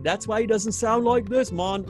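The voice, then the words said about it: Poorly imitated Jamaican accent. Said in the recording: “I just butchered the Jamaican accent”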